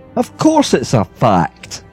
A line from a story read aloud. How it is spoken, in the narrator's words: answered my uncle testily